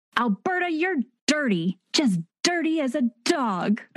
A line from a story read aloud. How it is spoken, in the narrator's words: Clara shouts